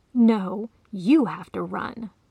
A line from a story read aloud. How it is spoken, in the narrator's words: the cat hissed